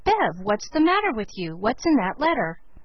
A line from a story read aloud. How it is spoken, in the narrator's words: Felix exclaimed